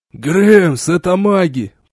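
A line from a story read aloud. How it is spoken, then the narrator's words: Hoarse rasp. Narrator (Russian): прохрипел Робс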